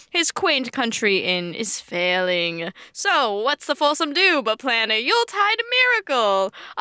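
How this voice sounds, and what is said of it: Not-so-good put-on accent. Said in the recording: “that wasn't my best accent.”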